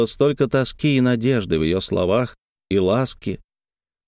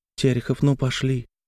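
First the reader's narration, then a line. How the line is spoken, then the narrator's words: Quiet, tender. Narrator (Russian): сказала тихо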